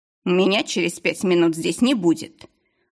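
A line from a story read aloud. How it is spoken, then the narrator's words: Snapped. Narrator (Russian): огрызнулся несостоявшийся покупатель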